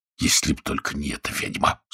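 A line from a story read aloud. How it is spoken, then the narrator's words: Man muttering through teeth. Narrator (Russian): сквозь зубы пробормотал мужчина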